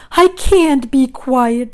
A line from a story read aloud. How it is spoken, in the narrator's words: screamed Wilbur